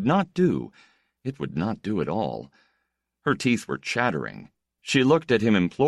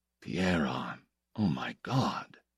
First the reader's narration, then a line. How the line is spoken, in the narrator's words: whispered, the tremor that ran through his whole body